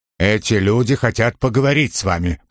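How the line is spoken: Curt grumble. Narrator (Russian): пробурчал он, словно никаких комментариев больше не требовалось

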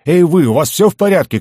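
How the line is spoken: Shouting through a door. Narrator (Russian): кричали из-за двери

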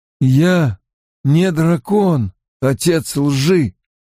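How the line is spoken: Hoarse rasp. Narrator (Russian): прохрипел Ранд

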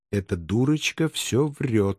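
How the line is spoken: Whisper. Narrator (Russian): шепотом просимофорила она

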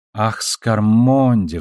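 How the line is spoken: Sighed. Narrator (Russian): вздохнула Надя

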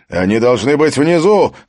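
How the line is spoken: Shout. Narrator (Russian): крикнул Хаген

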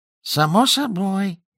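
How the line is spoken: Squeaky voice. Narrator (Russian): пропищал Гарри

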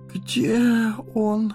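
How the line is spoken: Moaning. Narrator (Russian): простонал Фродо

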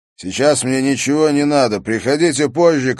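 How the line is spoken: Shout muffled by pillow. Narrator (Russian): крикнул Харри в подушку

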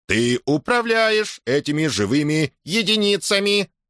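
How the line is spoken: Nasal metallic voice. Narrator (Russian): прогнусавил металлический голос

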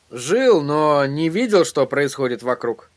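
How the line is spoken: Grumbling mutter. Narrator (Russian): пробурчал Эдди

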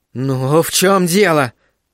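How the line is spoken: Angry hiss. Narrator (Russian): зло прошипела мисс Дежардин

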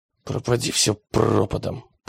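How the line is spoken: Muttered. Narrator (Russian): пробормотал он

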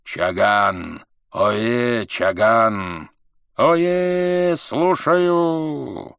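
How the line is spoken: Low, hoarse roar. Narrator (Russian): Низким, хриплым голосом Каган проревел

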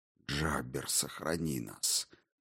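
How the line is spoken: Whisper. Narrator (Russian): прошептал каттер

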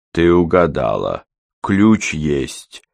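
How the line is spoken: Calm. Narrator (Russian): спокойно сказал Кортман

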